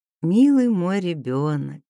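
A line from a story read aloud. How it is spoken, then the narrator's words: Tender, smiling. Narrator (Russian): ласково улыбнулась она ему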